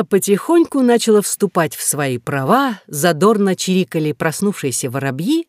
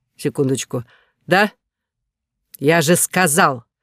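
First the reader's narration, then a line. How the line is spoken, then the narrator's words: Angry barking. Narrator (Russian): Вспылив буквально с первой секунды разговора, он что-то неразборчиво прорычал, а затем рявкнул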